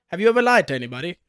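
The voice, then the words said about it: Bad put-on Australian accent. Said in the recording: “a terrible Australian accent.”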